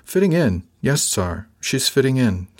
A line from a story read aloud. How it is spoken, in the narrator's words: said